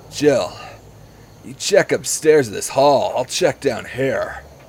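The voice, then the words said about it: Bad Patrick Warburton–Keanu Reeves voice. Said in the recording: “accents get worse and worse ... this accent started as Patrick Warburton, and now sounds like Patrick Warburton and Keanu Reeves had a hate child together”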